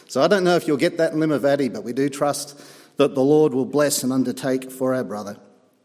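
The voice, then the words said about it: Australian accent. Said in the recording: “an Aussie accent”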